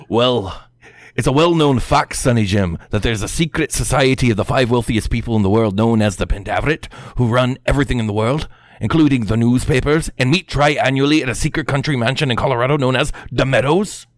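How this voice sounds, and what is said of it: Put-on accent, done well. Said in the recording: “I'm gonna attempt to do the accent. ... Dude, that was really good.”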